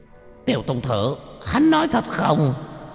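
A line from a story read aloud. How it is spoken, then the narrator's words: Shrieking spider. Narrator (Vietnamese): Một con nhện to như bàn tay la hét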